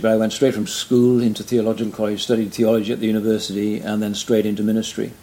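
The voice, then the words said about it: Welsh accent. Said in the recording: “I'm from Wales originally, as you probably tell by my accent.”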